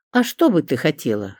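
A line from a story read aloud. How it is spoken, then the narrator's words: Wry snort. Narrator (Russian): хмыкнул Быков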